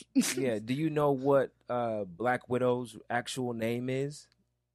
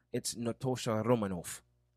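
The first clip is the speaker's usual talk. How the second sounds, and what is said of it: Put-on Russian accent. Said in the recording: “It was the Russian accent.”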